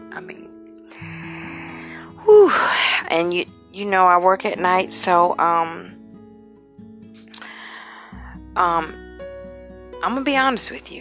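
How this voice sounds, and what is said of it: Extremely exhausted, tired voice. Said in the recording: “I don't know if you can tell by my voice, but I am extremely exhausted.”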